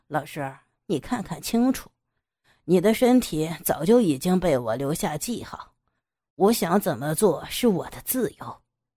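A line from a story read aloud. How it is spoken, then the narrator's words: Cold sneer. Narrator (Chinese): 杨野冷笑道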